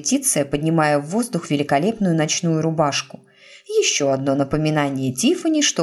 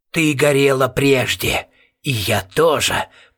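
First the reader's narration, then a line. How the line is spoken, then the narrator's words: Creaky inner voice. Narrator (Russian): проскрипел голос у нее в голове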